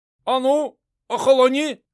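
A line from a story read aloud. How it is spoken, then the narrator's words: Shouting. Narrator (Russian): кричал Али Касимовец, который командовал охраной на выезде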